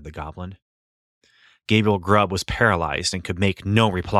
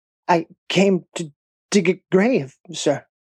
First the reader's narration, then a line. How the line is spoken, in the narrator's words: stammered Gabriel Grubb